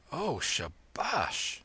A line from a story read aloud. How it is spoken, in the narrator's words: murmured Kim, unable to contain himself